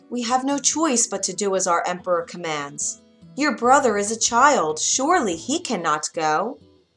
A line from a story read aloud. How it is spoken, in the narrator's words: said her father with a sigh